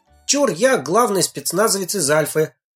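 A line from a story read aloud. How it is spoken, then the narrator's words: Cheerful exclamation. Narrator (Russian): Как обычно, бодро воскликнул Женька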